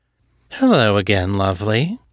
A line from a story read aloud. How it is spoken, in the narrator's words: she purred